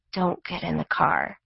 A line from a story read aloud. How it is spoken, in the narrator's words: Trisha said under her breath